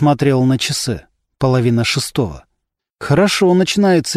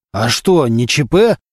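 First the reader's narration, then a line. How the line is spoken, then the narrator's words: Nervous bark, boss. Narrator (Russian): нервно рявкнул начальник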